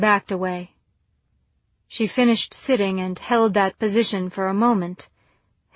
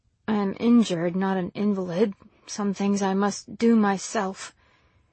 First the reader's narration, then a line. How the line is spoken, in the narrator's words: muttering an irritated